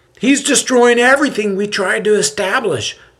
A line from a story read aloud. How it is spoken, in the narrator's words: the nasally pitched voice blurts out